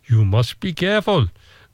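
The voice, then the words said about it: Put-on Indonesian accent. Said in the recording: “That's my Indonesian accent's very good, isn't it?”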